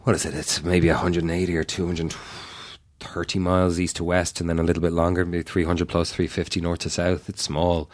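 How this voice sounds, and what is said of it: Irish accent. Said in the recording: “your accent in particular makes everything okay ... It sounds Irish to me”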